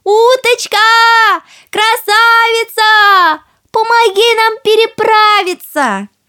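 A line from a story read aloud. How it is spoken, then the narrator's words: Calling out. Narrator (Russian): И крикнула уточке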